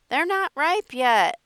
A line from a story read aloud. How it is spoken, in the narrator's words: I exclaimed